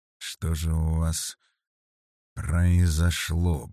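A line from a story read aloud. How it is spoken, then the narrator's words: Muttered. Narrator (Russian): пробормотал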